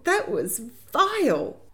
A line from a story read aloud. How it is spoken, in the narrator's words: exclaimed